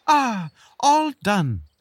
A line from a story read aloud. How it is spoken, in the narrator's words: the beetle exclaimed